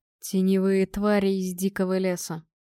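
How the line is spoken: Grim explanation. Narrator (Russian): мрачно пояснил Торг, видя мое потрясение

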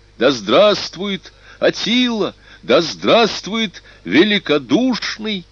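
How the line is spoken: Jubilant crowd shouting. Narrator (Russian): кричала ликующая толпа

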